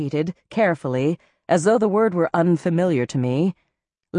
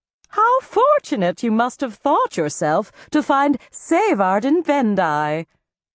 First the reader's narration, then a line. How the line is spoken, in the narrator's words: She leaned toward me and said loudly